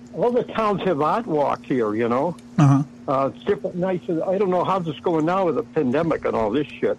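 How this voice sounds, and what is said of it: Massachusetts accent. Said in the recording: “you got the accent, man. Were you from like Boston or somewhere? ... it sounded like a Massachusetts accent. ... still got a little bit”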